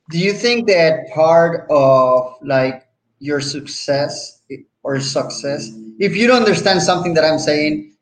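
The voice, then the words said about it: Puerto Rican accent. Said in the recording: “it's my Puerto Rican accent.”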